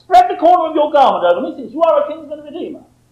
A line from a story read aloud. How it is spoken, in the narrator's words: says, blurts out